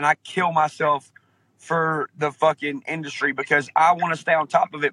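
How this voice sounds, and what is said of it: Southern US accent. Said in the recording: “a real southern accent”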